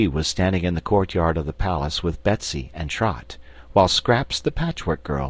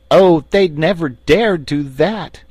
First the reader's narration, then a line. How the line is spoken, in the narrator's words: exclaimed Tiny Trot